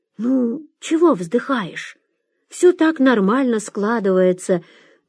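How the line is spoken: Uncertain. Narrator (Russian): неуверенно сказал Шурик

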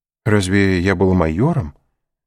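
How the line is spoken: Timid old man asking. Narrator (Russian): робко осведомился старый воин

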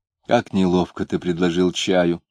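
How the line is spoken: Soft remark. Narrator (Russian): мягким тоном заметила Варвара

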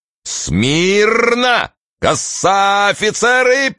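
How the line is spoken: Shouted command. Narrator (Russian): прокричал Студзинский

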